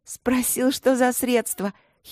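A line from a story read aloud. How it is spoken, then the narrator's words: Giggling. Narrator (Russian): хихикая продолжила Эбби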